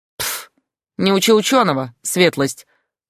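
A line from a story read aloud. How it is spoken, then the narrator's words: Smug grumble. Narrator (Russian): самодовольно проворчал Яга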